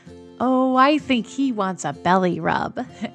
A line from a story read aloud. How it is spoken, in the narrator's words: Emily said, laughing